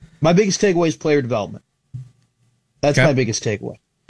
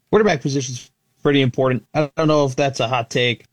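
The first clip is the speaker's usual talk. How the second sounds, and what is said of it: Sarcastic delivery. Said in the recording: “sorry, I was being sarcastic there.”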